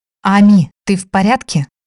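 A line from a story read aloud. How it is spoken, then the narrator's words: Shaky voice. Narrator (Russian): Дрогнувшим голосом поинтересовалась та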